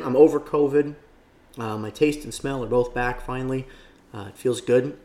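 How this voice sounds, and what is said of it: Hoarse, partly lost voice. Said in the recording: “my voice is a little bit lost today ... I lost my voice from last night because, you know, a lot of screaming”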